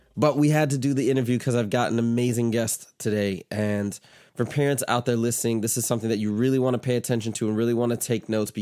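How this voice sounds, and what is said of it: Stuffy, congested voice. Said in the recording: “if I sound a little stuffy, it's because I am a little stuffy ... that's why I sound a little congested.”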